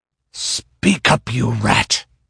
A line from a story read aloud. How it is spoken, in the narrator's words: he growled